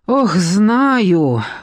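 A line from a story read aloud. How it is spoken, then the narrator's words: Sighing. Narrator (Russian): вздохнула Надежда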